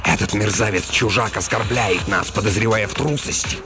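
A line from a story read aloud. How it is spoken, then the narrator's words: Hissed. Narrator (Russian): прошипел Стоун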